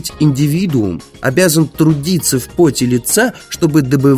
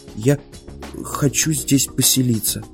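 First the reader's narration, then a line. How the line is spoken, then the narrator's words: Quiet. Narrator (Russian): тихо сказал Мортон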